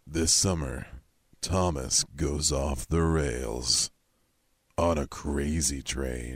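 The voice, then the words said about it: Deep movie trailer narrator voice. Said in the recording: “you have a good, deep voice. ... So give me your best movie trailer.”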